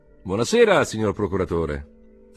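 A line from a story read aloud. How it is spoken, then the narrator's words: Group shouting. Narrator (Italian): gridarono quelli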